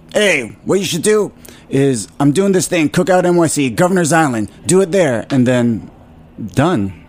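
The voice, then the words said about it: Imitates another person's voice. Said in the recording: “this is going to be my Jimmy impression.”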